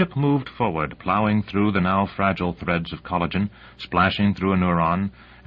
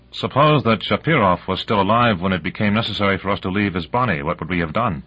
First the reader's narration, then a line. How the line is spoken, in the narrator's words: Morrison said dryly